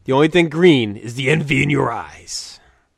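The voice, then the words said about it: Imitates another person's voice. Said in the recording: “my Macho Man impression ... please stop with your Macho Man impression”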